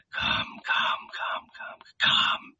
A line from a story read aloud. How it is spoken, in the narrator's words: he murmured